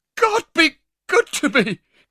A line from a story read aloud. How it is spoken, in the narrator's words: cried the old lady